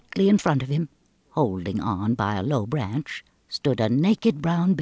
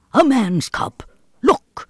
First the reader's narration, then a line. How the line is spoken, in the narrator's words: he snapped